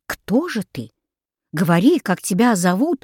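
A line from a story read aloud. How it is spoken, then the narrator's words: Surprised exclamation. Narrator (Russian): удивленно воскликнул Юлий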